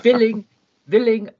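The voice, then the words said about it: Put-on Dracula accent. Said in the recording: “You got to use the Dracula accent for that.”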